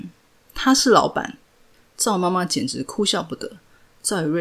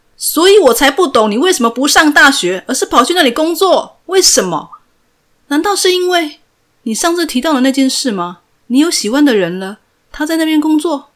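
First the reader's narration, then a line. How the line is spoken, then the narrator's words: Very calm. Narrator (Chinese): 赵宇瑞非常冷静的说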